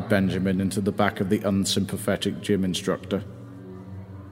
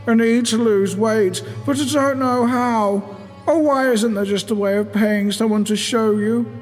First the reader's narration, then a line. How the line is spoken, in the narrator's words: whined